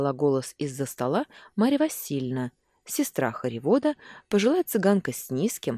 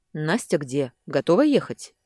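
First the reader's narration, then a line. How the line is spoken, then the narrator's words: Curt question. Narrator (Russian): отрывисто спросил Яков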